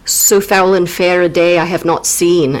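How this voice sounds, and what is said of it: Tight-mouthed attempted Scottish accent. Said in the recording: “Did you know that I could almost do a Scottish accent? ... It was very, like, very tight mouthed”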